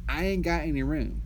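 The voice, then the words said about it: Put-on Southern dialect. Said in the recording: “as we say in Southern dialect, in my bourgeois accent”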